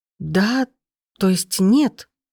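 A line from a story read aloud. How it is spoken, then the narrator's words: Confused. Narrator (Russian): проговорила растерянно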